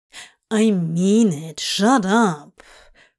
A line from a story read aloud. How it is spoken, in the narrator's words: Crowley growled, entirely without any real manners